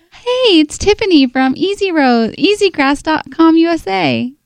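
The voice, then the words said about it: Put-on fake phone voice. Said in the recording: “I like the fake voice, so let's work on that ... Do it again.”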